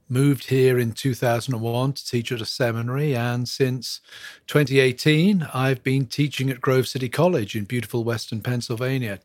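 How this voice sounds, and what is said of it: English accent. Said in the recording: “from my accent, you can tell that I'm not from stateside. I was born and brought up in England”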